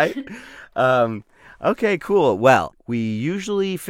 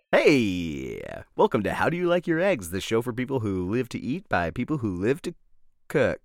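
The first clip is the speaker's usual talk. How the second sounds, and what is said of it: Polished radio host voice. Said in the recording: “your radio voice is great. It's great.”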